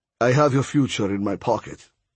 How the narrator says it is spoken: he said

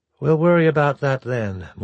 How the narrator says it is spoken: Murakuma said flatly

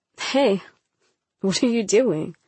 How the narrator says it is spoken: He chuckled nervously

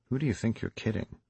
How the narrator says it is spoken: Sally muttered from the corner of her mouth

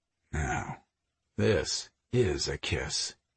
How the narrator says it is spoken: he murmured

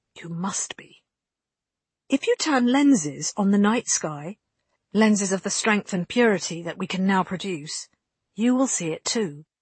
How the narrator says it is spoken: Bianca explains calmly

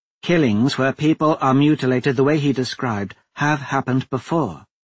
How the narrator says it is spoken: Seton said

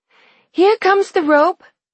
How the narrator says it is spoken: I called out

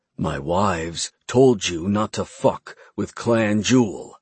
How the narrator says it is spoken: I growled

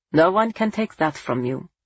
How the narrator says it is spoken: Felix said stiffly

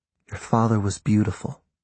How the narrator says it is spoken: She said calmly

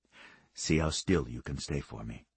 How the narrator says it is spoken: he whispered it

